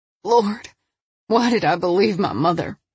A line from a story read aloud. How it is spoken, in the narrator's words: she mumbled